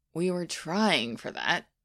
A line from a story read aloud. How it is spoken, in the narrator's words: said the director wearily